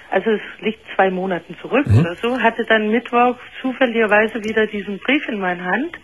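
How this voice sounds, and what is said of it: Danish accent in German. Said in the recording (German): “ich finde deine Stimme auch sehr charmant. Was ist das für ein Akzent? ... Dänen klingen für uns Deutsche ja wirklich hinreißend ... diesen Dialekt ... er ist wirklich sehr süß.”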